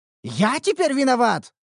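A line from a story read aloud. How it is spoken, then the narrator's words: Indignant exclamation. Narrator (Russian): возмущенно воскликнул кузнец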